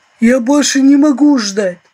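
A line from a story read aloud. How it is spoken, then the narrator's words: Deep bass voice. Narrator (Russian): Трофим Гансович пробасил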